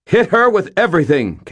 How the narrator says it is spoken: Captain Molly snapped

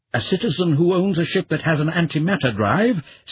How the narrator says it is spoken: Syrinx said sharply

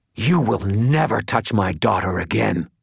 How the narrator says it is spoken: The creature roared in fury

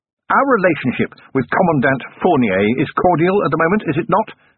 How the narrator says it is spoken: said Vimes

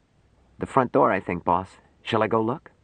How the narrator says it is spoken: Larry whispered

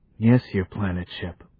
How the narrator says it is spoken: mumbled Jayed

